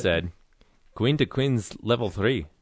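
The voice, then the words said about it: Attempted Scottish accent sounding Russian. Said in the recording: “Your Russian accent is. ... Is that Russian? I was trying to do Scottish. ... Was supposed to be Scottish.”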